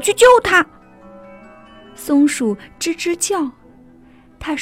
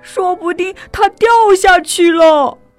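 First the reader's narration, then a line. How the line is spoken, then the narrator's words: Crying shout. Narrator (Chinese): 猫哭着大喊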